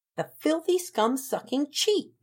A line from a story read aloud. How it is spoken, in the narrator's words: Beezer shouted